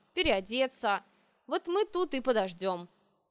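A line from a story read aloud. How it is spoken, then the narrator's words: Solemn. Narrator (Russian): Торжественно завершил он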